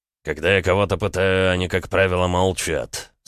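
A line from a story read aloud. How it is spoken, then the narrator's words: Through gritted teeth. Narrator (Russian): сквозь зубы процедил Эд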